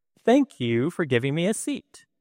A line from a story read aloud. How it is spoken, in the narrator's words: loudly exclaimed to the whole train